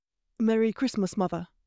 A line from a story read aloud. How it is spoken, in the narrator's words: Draco said